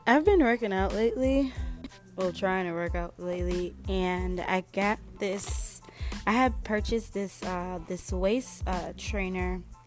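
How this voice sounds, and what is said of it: Slightly scratchy voice. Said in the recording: “As you guys can see in my voice ... my voice is still a little scratchy”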